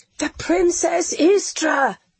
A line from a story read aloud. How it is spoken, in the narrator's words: they cried